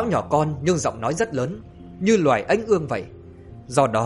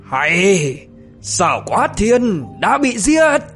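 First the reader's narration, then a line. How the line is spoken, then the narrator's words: Thunderous shout. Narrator (Vietnamese): Tiết Cao Vân thì quát vang như sấm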